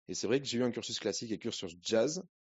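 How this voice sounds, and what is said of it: Singsong southwestern French accent. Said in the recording (French): “dans le sud, sud-ouest ... dans ce magnifique accent chantant.”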